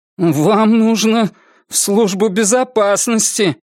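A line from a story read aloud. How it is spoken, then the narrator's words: Mumbling. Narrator (Russian): промямлил Крис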